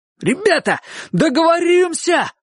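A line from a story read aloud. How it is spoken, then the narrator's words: Sudden shout. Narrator (Russian): вдруг закричал Ясон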